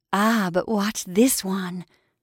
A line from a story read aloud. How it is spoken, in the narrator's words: she whispered